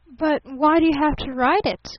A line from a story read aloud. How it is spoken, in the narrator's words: gasped Barton